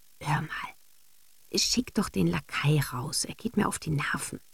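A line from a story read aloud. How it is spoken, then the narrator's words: Whispered. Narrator (German): flüsterte Rosine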